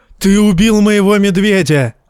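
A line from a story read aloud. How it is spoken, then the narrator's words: Yelling. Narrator (Russian): вопил Варга Хоут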